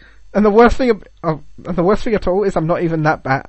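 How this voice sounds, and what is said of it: British accent. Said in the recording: “you do have a British accent.”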